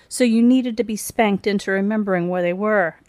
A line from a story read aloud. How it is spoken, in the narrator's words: Angela barked, interrupting Thomas's near meltdown